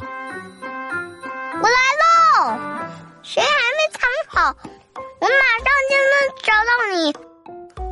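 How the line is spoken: Loud calling. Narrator (Chinese): 大声喊道

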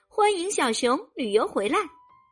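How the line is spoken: Happy giggling. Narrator (Chinese): 小熊高兴的咯咯直笑

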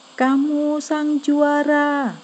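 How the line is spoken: Father shouting. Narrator (Indonesian): Sekali lagi, sang ayah berteriak

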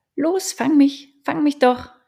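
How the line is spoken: Called out. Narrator (German): rief

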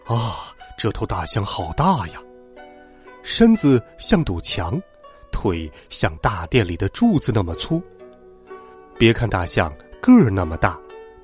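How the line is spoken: Marveling exclamations. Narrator (Chinese): 文武百官纷纷感叹

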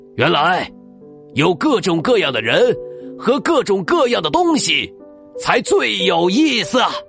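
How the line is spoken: Loud excited exclamation. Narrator (Chinese): 公爵大声喊起来

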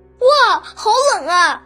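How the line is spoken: Shivering cry. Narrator (Chinese): 艾斯本的后背窜起了一股凉气，他叫了起来

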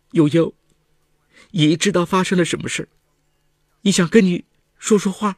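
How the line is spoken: Crying. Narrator (Chinese): 文清忍不住的哭了，说

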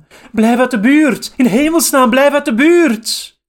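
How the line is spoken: Shouting. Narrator (Dutch): de anderen schreeuwden

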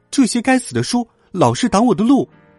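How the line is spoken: Shouting. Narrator (Chinese): 米娜常常叫喊

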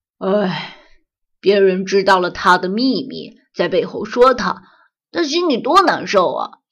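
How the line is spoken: Sighing. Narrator (Chinese): 阿郎叹了口气，接着说

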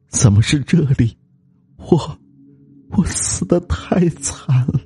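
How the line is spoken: Eerie mournful ghostly voice. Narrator (Chinese): 哀怨苦痛的声音在空荡荡的树林里响起，更添了诡秘

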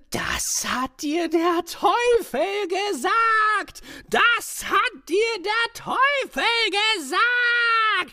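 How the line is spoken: Furious shriek, small man. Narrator (German): schrie das kleine Männchen vor Zorn

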